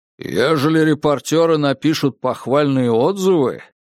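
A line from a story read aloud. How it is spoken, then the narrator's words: Booming, bearlike man. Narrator (Russian): прогудел медведеподобный Долби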